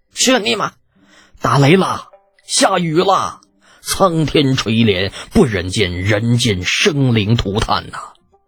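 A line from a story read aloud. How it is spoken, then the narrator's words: Joyful crowd cheering. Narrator (Chinese): 无数人走上街头，欢声笑语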